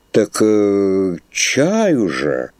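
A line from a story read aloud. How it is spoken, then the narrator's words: Bewildered. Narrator (Russian): растерянно произнес архиерей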